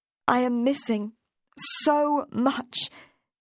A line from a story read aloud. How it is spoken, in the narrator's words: almost cried out